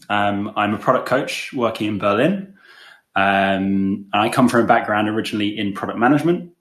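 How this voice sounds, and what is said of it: English accent. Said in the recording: “You can probably tell from my accent that I'm not from Germany, but I'm English.”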